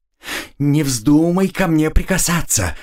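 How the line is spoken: Trembling warning. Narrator (Russian): предупредила она дрогнувшим голосом

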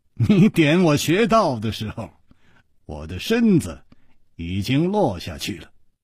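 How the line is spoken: Slight smile. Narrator (Chinese): 楚留香微微一笑

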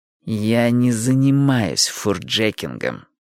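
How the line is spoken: Through gritted teeth. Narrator (Russian): процедила Джилл

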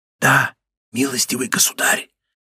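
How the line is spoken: Frightened, barely audible. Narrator (Russian): ответил испуганный посетитель так тихо, что его едва можно было расслышать

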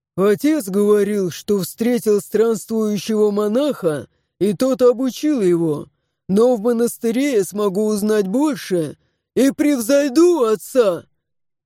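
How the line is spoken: Fervent, imposing bass. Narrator (Russian): Жаром вещал Рок своим внушительным басом

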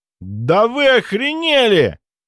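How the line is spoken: Roar. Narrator (Russian): взревел он

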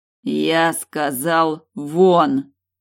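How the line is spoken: Growling through teeth. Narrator (Russian): рычу сквозь зубы

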